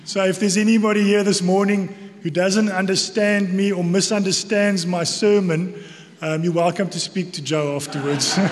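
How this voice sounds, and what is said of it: South African accent. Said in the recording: “you might hear from my accent that I'm from South Africa. So, if there is anybody that's going to struggle with my accent”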